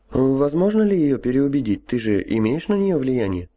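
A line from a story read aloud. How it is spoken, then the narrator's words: Uncertain question. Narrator (Russian): неуверенно поинтересовался Гоша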